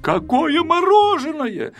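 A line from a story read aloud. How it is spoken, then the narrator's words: Shout. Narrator (Russian): закричал Пилюлькин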